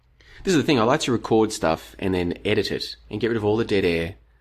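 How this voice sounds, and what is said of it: Tired, fading voice. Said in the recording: “two hours and my voice is just starting to go”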